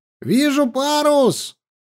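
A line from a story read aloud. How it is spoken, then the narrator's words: Sudden shout. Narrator (Russian): крикнул вдруг вперед смотрящий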